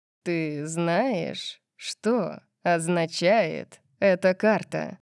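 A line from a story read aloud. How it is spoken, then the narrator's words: Slow toying question. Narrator (Russian): спросил он медленно, как будто играл со своей едой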